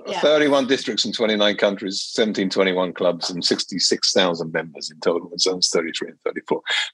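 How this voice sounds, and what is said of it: Lingering British accent. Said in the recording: “you have that British accent. I wouldn't say you have a local Cayman accent... I do have a lingering accent.”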